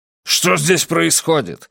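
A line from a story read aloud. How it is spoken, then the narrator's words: Angry question. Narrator (Russian): сердито спросил Колм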